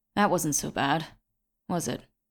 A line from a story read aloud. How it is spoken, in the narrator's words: said Falk, between breaths